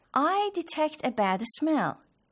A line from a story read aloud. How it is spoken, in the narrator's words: exclaimed